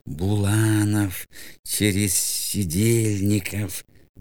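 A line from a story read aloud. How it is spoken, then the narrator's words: Muttering. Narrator (Russian): бормотал он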